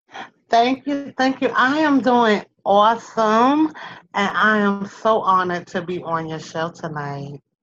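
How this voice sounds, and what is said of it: New York accent. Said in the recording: “I hear an accent ... I have that New York-esque accent”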